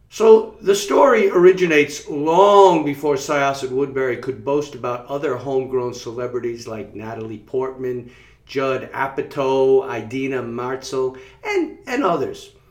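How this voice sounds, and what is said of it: Slight Long Island accent. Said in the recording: “you're probably hearing my Long Island accent coming out just a little bit”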